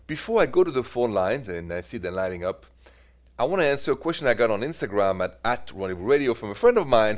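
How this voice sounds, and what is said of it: French accent. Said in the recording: “The accent is French, by the way”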